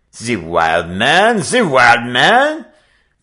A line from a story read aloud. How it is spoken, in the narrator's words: French Pete shrieked